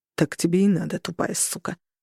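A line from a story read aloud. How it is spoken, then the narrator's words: Gruff grumble. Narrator (Russian): буркнул мужик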